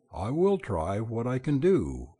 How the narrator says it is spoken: he said

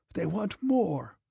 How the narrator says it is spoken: croaked Napoleon, frowning

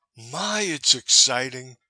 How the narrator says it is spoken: she cried, pausing from sheer weakness

